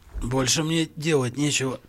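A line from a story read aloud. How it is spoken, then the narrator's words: Hoarse wheeze. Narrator (Russian): прохрипел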